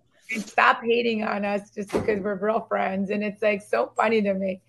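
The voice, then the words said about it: Hoarse, strained voice. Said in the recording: “losing my voice ... we are disgusting right now. I'm almost embarrassed for people to have to hear our voice like this ... it sounds like I had four bottles of Danos tequilas and 60 packs of cigarettes”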